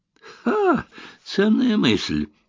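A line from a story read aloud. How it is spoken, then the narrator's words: Snorting. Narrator (Russian): фыркнул Эллери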